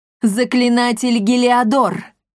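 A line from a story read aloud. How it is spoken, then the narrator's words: Loud call. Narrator (Russian): громко позвала баронесса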